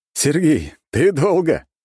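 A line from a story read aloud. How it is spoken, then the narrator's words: Laughing young prince. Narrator (Russian): хохотал царевич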